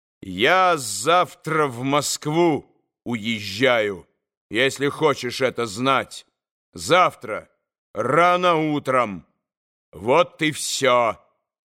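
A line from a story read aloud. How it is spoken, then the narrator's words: Spiteful, loud, deliberate. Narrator (Russian): Злобою, раздельно и громко вдруг проговорил он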